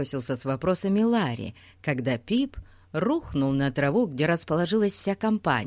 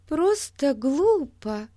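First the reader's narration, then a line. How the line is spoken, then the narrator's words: Confused, bewildered. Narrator (Russian): произнесла Бетси растерянно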